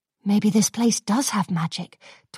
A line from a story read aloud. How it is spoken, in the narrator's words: Twilight mumbled to herself, marvelling